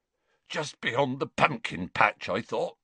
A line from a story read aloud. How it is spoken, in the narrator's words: said Hagrid in a choked voice